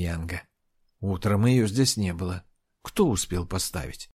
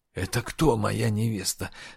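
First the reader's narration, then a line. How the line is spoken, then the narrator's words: Hoarse question. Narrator (Russian): хрипло спросил Мами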